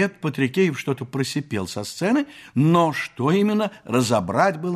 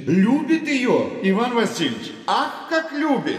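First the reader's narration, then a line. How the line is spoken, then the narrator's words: Shouted. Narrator (Russian): Закричал Фома Стриж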